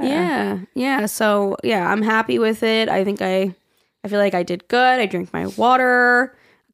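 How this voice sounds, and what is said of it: Hoarse, strained voice. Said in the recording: “that's why my voice is gone. We were like, it was loud. We were yelling. We were singing.”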